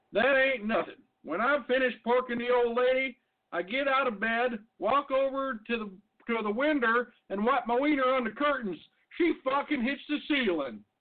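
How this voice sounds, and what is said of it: Put-on American redneck accent. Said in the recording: “I don't even know how to do a redneck voice.”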